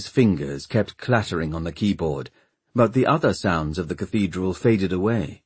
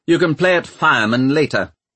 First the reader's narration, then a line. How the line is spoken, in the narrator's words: snapped the Lord Mayor